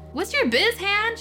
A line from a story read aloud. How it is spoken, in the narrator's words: She shouted